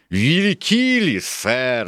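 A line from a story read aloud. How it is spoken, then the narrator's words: Shouting. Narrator (Russian): закричал Сквайр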